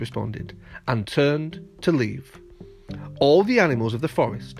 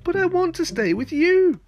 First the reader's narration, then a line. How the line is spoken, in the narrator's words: Bambi whined